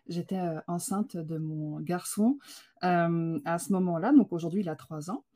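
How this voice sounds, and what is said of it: French accent from France. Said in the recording (French): “mon accent, moi, je suis française, donc je suis arrivée au Québec”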